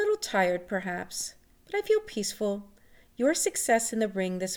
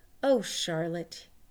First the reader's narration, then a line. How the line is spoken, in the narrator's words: he said